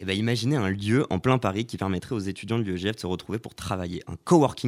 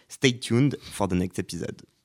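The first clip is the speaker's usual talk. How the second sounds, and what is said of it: Put-on accent. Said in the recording (French): “J'attendais juste cet accent,”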